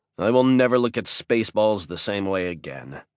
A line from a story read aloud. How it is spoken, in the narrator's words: I said